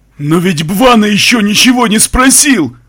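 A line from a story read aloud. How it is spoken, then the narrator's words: Terrified wail. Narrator (Russian): В полном ужасе завопил демон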